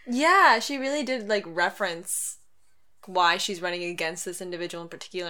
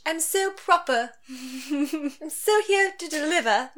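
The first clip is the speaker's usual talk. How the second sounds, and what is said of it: Put-on prim California English accent. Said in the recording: “I'm like California English ... Didn't catch that accent ... She didn't have that accent. I made it up.”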